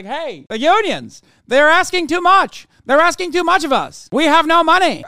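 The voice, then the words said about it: Put-on transatlantic accent. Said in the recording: “With a transatlantic accent.”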